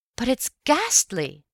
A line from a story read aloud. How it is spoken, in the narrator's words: I cried